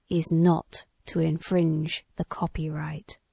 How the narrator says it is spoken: spoke it solemnly

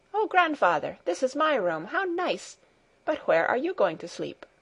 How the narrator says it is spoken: Heidi clapped her hands for joy and exclaimed

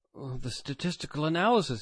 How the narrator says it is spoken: he exclaimed

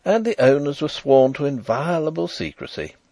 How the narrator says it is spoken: he exclaimed

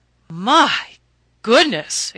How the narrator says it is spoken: exclaimed Mrs

